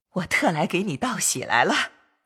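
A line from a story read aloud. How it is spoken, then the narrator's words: Laughing. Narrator (Chinese): 邢夫人笑道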